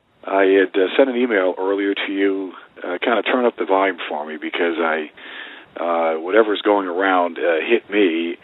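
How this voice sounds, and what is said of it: Weak, sick-sounding voice. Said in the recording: “my voice is a little bit comp- sounds ... weak”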